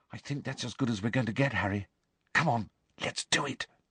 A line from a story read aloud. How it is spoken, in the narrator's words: Hermione said quietly